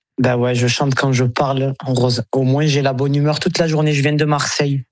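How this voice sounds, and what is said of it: Slight southern French accent. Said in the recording (French): “vous avez un petit accent du Sud.”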